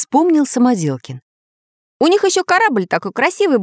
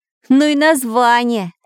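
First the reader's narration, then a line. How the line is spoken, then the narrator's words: Laughing. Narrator (Russian): засмеялся Самоделкин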